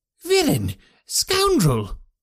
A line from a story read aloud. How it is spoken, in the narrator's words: cried the Colonel